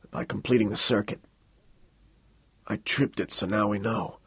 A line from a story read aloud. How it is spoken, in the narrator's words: mumbled